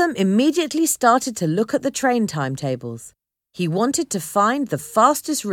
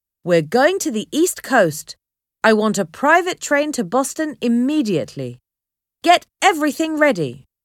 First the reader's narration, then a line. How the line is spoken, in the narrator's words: Cheney shouted down the stairs to his assistant